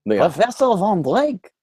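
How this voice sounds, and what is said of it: Bad German accent, sounds French. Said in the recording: “that was a bad impression. It sounded more like Lumiere.”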